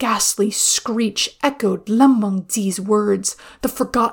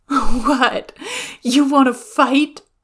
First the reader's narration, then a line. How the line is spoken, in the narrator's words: to laugh